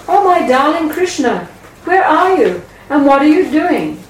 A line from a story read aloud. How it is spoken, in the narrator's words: When Yashoda returned and called out